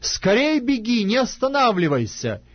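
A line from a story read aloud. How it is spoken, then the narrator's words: Shouting after someone. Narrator (Russian): И опять кричал Иоаннафан вслед отроку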